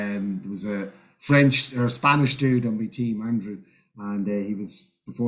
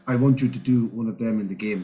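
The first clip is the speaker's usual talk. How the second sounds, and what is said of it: Put-on Spanish accent. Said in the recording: “That's a Spanish accent, by the way.”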